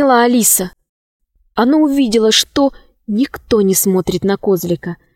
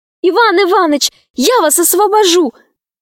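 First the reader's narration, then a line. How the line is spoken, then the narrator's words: Shout. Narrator (Russian): крикнула она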